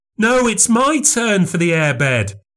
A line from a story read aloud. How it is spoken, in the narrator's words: I cried